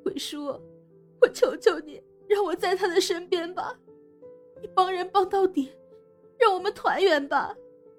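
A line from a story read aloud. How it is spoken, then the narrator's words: Crying, pleading. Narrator (Chinese): 香妃往后缩着，哭求鬼叔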